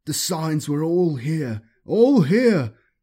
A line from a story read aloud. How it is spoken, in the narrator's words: he wailed